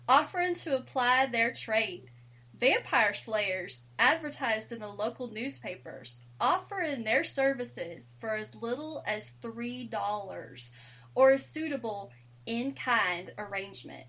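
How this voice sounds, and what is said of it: Put-on country accent. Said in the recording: “I can do my country voice.”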